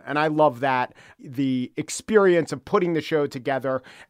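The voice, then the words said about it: Gruff New York accent. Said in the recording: “you don't sound like a quote unquote traditional NPR broadcaster. You have a New York accent. You, you sort of have a little bit of a gruff, like everyday guy demeanor”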